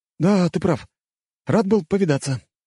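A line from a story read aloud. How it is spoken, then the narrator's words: Uncertain. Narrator (Russian): неуверенно сказал он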